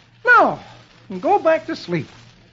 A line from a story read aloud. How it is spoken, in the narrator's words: saying cheerfully